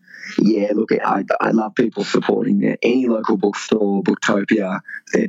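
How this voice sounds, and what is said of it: Deep, husky recovering voice. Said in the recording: “lost my voice this week. I've got it back, only just ... I sound a little bit deep and husky”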